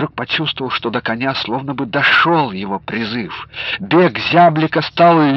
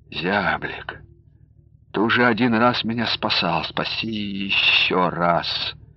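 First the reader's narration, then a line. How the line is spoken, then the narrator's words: Quiet prayer-like murmur. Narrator (Russian): Якушев негромко, будто молитву читая, произнес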